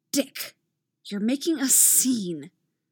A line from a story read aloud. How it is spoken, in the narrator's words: a new voice hisses from the side